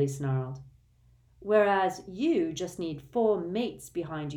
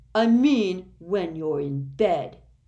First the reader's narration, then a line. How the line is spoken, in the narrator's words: Dudley snarled